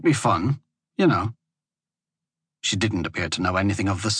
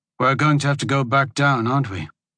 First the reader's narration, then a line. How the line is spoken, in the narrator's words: Roan groaned